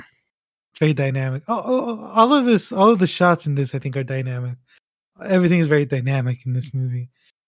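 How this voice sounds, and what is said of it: Strained, fading voice. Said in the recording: “I'm losing my voice because I was, like, basically shouting for, like, an hour”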